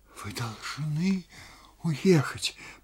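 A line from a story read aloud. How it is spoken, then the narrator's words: Whisper. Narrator (Russian): продолжала Анна Сергеевна шепотом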